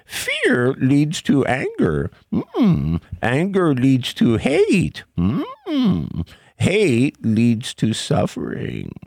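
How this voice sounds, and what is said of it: Yoda impression. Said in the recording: “do I say this like Yoda? ... A good impression too.”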